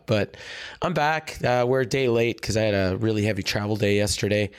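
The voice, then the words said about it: Hoarse, worn-out voice. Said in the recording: “If you can't tell by the sound of my voice, I, uh, I, I spent the weekend in Las Vegas uh, cheering at the top of my lungs ... my voice is completely shot.”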